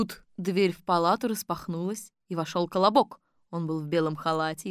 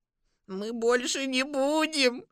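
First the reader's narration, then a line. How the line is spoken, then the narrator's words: Hoarse voices. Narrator (Russian): Сказали они сиплыми голосами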